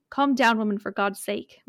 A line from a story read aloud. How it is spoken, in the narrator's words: my father replied firmly